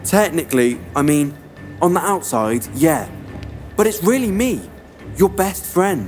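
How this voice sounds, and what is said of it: British accent. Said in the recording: “you're speaking in a British accent.”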